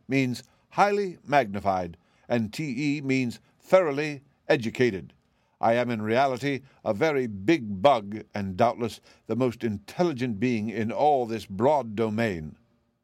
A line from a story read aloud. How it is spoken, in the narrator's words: said the Wogglebug pompously